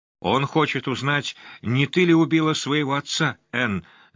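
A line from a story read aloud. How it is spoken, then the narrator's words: Screaming, voice breaking. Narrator (Russian): завопила она, и голос ее сорвался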